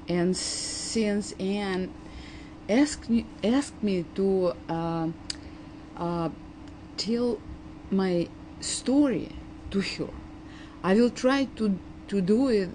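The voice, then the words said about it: Heavy Eastern European accent. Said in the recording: “I'm an immigrant from the former Soviet Union ... my heavy accent, which is rich enough”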